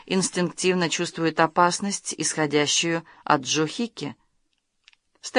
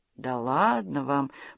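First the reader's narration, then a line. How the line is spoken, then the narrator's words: Drawling. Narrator (Russian): протянула Стефани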